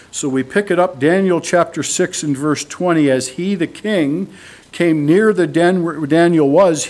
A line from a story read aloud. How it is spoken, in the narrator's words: he cried out in a tone of anguish